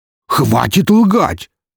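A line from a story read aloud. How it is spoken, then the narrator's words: Angry bark. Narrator (Russian): рявкнул покрасневший граф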